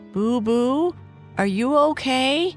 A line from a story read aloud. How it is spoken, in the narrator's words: Kai Kai called out